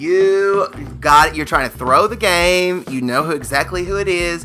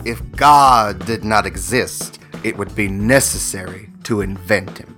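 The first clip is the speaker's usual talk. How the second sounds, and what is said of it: Imitates another person's voice. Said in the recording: “that impression ... That it is a dead on Bea Arthur”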